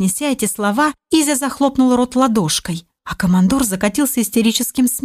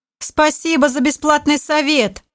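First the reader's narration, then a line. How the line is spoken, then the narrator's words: Just finished laughing. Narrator (Russian): Отсмеявшись, произнес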